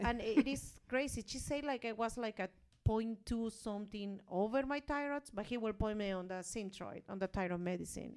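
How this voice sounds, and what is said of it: Speaks with an accent. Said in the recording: “it's my accent.”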